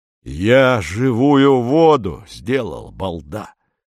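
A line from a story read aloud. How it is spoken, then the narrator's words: Hoarse speech. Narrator (Russian): хрипит Корнеев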